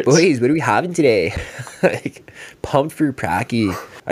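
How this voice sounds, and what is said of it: Exaggerated Canadian hockey-player accent. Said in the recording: “I was doing that hockey voice ... I'm accidentally speaking like that ... I do it so much sarcastically that I might have a Canadian accent”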